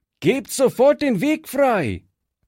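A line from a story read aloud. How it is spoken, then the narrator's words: Calling out. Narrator (German): rief Fritz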